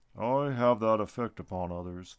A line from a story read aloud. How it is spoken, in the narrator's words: the tree man said and sighed